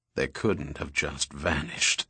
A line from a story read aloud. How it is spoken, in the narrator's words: the president grumbled